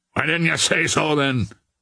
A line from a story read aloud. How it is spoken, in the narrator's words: growled the man